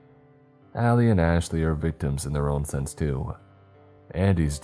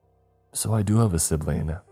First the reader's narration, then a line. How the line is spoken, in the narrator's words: she whispered